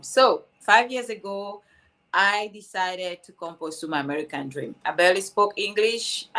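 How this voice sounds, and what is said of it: Cameroonian-accented English. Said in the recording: “I'm originally from Cameroon. That's why you have this beautiful, beautiful accent”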